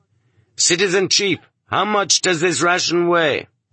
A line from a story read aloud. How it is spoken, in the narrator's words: only one among them loudly asked